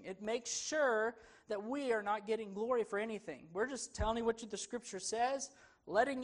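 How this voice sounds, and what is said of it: Southern accent. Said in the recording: “I got some southern accent in my Greek.”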